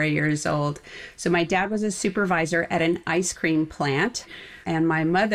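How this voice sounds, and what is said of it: Usual voice. Nothing is said of it.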